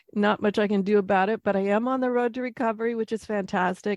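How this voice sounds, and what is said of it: Stuffy, congested nasal voice. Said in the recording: “I still got a bit of that schnozzle thing going on from last week, so I apologize if you hear that in my voice.”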